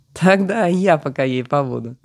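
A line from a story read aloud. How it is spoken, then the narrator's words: Laughing. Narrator (Russian): спросил собеседник, и, захохотав, добавил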